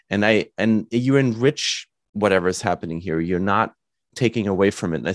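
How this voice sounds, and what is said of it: German accent in English. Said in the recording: “I always wanted to hide my German and everybody heard it ... you have an accent”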